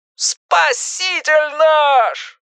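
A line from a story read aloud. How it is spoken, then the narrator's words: Joyful howl over phone. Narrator (Russian): радостно взвыл в трубке староста группы номер 4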